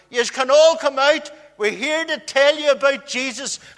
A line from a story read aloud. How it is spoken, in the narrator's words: We lifted the letterboxes and shouted in through the door